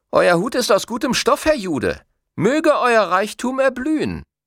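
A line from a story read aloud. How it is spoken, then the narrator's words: Boy calling out. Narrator (German): der Junge rief ihm zu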